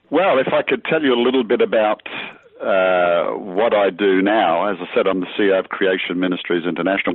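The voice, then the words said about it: Australian-accented male speech. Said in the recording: “That's a fantastic accent ... I'm actually from Australia originally”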